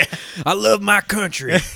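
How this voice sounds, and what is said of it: Put-on Southern American accent. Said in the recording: “why is he Southern? ... He's just got a Southern accent now.”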